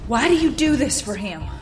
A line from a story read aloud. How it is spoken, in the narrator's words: I panted